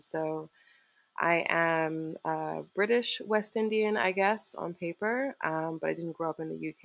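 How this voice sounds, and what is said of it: Partly American-sounding accent. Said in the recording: “I spent a fair amount of time in the United States as well, I guess, hence the accent.”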